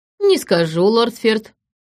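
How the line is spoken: Snake's smirking hum. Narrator (Russian): хмыкнул змей

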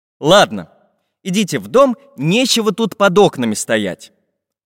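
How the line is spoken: Stern magical painter. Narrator (Russian): строго сказал волшебный художник

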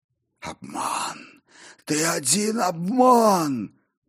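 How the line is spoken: Hoarse croak of undead. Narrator (Russian): прохрипел восставший

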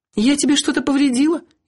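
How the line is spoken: Frightened question. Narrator (Russian): испуганно спросила Биргит

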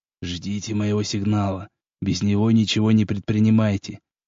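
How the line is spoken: Whisper. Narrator (Russian): прошептал

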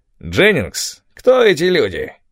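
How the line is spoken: Loud creaky voice. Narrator (Russian): спросил громким скрипучим голосом

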